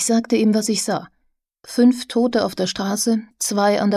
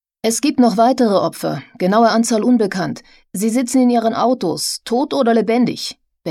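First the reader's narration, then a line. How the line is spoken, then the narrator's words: Barking into phone. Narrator (German): bellte ich ins Telefon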